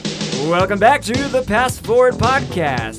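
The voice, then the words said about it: Radio announcer voice. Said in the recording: “doing a radio announcer voice ... Okay, enough of the voice.”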